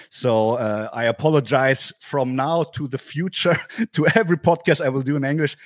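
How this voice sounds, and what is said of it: German accent in English. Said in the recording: “this German crowd English accent I provide you ... Sorry for my English”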